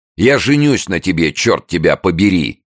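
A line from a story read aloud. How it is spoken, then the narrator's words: Sudden shout. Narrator (Russian): Сходу заорал он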